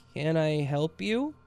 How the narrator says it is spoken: I managed to stammer out

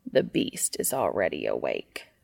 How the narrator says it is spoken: Cass grumbles from the doorway

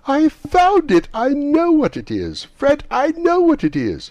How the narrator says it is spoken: the plump sister, falling into a similar state, cried out

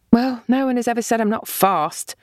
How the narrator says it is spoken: Sesily said dryly

